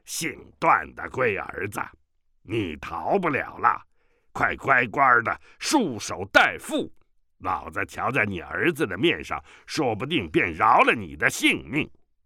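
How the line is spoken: Grating metallic shout. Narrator (Chinese): 远处一声长吼，跟着有个金属互相摩擦一般的声音叫道

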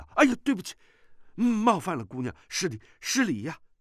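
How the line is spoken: Hurried startled. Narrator (Chinese): 段誉急忙转身惊道

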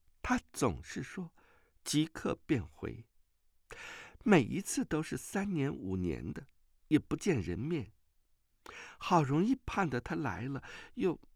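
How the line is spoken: Tearful, choked. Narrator (Chinese): 阮星竹泪凝于眶，哽咽道

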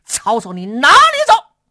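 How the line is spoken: Loud shouting. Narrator (Chinese): 马超高声喊嚷

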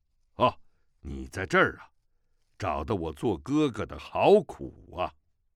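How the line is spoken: Gruff male voice. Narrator (Chinese): 一个男子的声音粗声道

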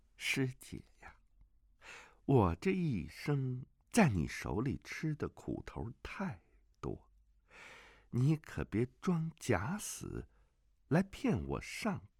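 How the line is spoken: Soft voice. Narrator (Chinese): 李秋水轻声说

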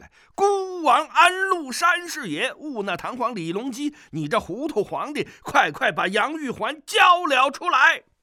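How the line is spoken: Loud shout. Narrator (Chinese): 包牧童大声叫了起来

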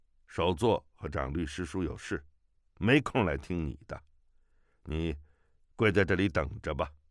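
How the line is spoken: Cold, flat. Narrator (Chinese): 中年僧人，冷冷地说

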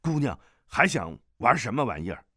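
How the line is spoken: Loud, asking. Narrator (Chinese): 众兵大声道谢，问道

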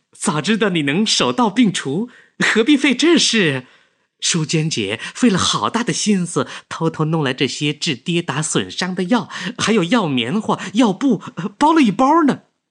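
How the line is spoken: Smiling. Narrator (Chinese): 柳絮影笑

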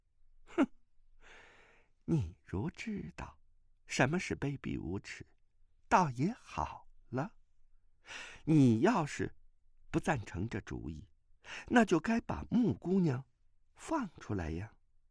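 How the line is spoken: Cold sneer. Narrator (Chinese): 钟夫人冷笑道

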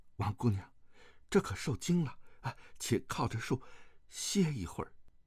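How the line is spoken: Gentle, soothing. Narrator (Chinese): 段誉柔声安慰

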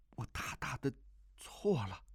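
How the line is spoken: Trembling voice. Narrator (Chinese): 这六个字娇柔婉转

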